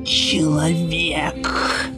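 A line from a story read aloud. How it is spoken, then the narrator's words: Creaky voice from behind. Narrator (Russian): проскрипел голос за его спиной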